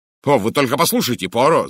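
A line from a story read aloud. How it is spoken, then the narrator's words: Shouting. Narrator (Russian): закричал я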